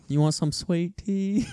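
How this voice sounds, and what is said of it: Weak put-on accent impression. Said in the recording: “That's not my best impression there.”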